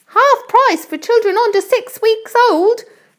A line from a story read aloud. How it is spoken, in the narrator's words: Aunt Sponge shouted